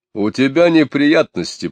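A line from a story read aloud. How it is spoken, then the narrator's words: Low booming voice. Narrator (Russian): прогудел Шалва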